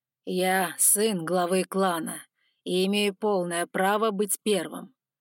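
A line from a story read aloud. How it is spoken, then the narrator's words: Growling. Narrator (Russian): прорычал третий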